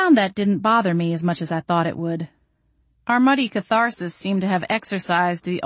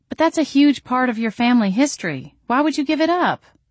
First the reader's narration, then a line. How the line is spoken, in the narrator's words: exclaimed